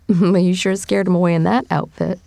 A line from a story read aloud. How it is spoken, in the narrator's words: Joe said, laughing